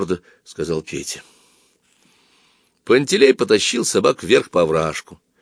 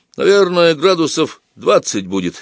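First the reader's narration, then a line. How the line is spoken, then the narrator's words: Casual remark. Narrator (Russian): заметил он небрежным тоном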